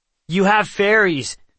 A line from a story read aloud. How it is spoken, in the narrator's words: Nox blurted